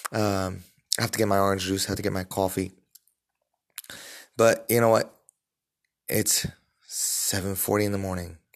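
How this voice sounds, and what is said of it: Groggy early-morning voice. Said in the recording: “I'm not a morning person ... You could even hear it in my voice.”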